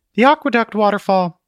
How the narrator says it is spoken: Truth yelled

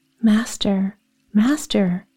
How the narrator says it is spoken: cried, panting

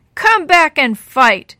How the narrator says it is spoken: Sammy roared

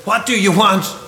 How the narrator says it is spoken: shouted

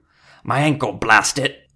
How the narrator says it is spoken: another dwarf snarled

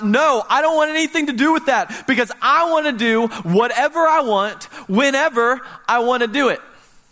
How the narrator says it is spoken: the natural self inside of us screams out

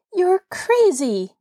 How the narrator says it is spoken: Nancy snapped

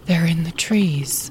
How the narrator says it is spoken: they whispered

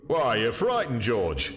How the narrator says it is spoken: said the stout commercial with a chuckle

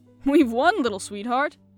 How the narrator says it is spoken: he cried joyously

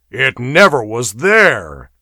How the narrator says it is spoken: snorted Dionysus

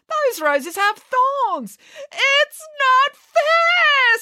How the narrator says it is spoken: screamed Matilda

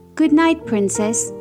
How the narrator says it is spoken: the fairies replied

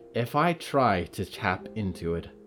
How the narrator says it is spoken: Friday said

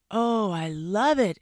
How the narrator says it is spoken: exclaimed the fox

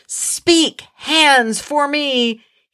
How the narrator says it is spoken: Casca shouts

